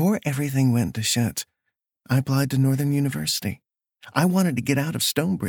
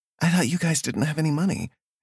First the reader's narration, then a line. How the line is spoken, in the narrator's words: Amber asked